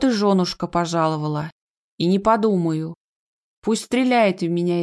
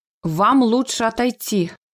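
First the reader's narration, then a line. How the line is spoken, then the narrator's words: Spoken through gritted teeth. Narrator (Russian): цежу сквозь зубы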